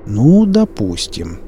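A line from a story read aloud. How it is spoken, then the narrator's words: Drawling. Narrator (Russian): протянул Пика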